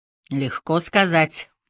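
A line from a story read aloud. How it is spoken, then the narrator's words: Skeptical snort. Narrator (Russian): хмыкнул Дуг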